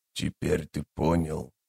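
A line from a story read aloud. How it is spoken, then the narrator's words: Wheezing breath-broken speech. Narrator (Russian): продолжил незнакомец, чью речь то и дело прерывали сиплые хрипящие вздохи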